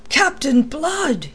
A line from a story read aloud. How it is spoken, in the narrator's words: he cried